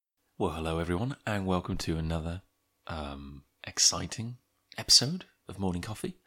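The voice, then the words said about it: Whispering. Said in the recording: “I'm whispering, kind of, maybe a little more than usual”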